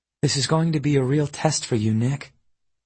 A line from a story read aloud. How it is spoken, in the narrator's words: she murmured